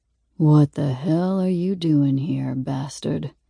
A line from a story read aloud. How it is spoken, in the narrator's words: asks, his voice gravelly